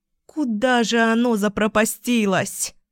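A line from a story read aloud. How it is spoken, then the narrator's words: Moaning. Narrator (Russian): Застонала я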